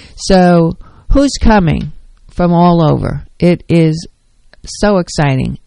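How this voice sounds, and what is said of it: Excited, energetic voice. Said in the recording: “If you can tell by my voice how excited I am, truly.”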